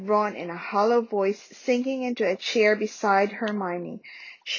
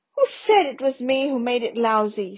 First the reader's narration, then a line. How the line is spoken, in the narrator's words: snapped Ron